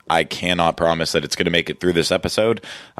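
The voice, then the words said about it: Voice going, worn out. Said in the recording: “I'm losing my voice currently, so I've been talking all day.”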